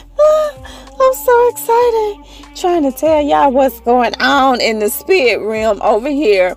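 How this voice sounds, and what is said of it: Out of breath, excited speech. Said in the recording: “I'm out of breath trying to tell y'all. I'm so excited.”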